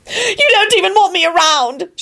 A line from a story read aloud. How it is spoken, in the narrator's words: she bawled